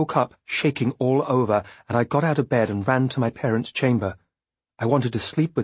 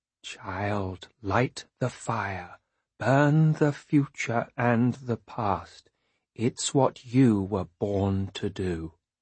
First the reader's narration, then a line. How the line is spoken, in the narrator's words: In a slow and frightening voice, she says